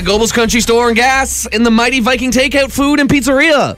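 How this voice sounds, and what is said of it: Fast auctioneer-style rattling delivery. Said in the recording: “I'm going to use my auctioneer voice to rattle through”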